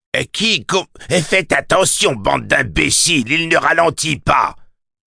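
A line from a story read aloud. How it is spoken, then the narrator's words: Barked shout from behind. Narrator (French): aboya Gasqui Otego quelque part dans leur dos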